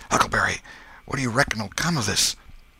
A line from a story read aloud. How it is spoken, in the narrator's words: their pulses slowed down, and Tom whispered